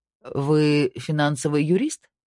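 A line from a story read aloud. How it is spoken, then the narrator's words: Slightly questioning tone. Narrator (Russian): спросил Снейдер слегка вопросительным тоном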